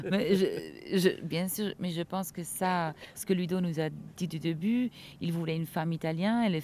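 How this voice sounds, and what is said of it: Light Italian accent in French. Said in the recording (French): “l'accent italien ... Léger”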